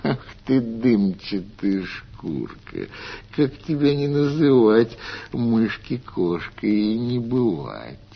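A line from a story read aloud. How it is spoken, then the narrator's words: Laughing cat. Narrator (Russian): Засмеялась кошка-мурка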